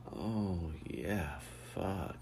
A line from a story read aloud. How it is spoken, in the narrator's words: Lucas moaned